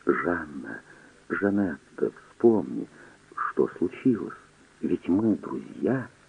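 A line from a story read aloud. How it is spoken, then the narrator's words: Whisper. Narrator (Russian): Гризандаш шептал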